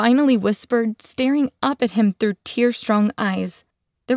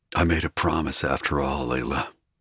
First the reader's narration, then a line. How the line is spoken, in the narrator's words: he murmured with a soft smile